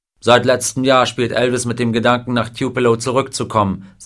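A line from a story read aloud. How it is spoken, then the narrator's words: Plain. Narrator (German): sagte Parker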